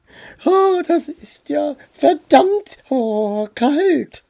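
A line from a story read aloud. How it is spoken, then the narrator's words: Trembling voice. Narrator (German): sagte Dora mit zittriger Stimme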